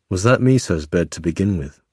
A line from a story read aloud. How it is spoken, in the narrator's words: he asked